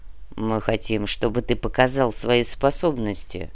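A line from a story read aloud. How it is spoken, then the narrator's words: Grumbled by massive creature. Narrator (Russian): пробурчал массивный нар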